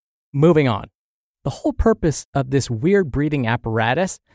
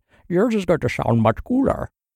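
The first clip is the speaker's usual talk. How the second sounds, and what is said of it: Bane impression voice. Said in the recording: “That was my Bane impression.”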